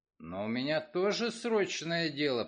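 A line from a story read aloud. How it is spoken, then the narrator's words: Grumbling. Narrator (Russian): проворчал он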